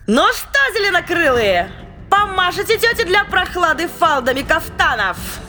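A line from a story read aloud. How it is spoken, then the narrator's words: Shouted. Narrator (Russian): Крикнула она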